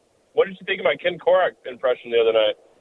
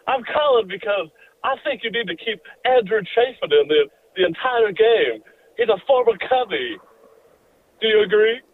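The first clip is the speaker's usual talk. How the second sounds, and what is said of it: Imitates another person's voice. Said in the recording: “I actually do a better impression of Harry Carey”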